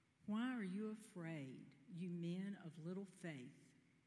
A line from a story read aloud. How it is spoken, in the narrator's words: He said very calmly